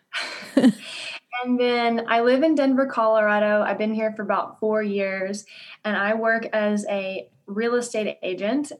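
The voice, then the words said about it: Southern American drawl. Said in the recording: “I'm originally from Louisiana. So if you hear a southern drawl, that is, you are hearing it... It is there.”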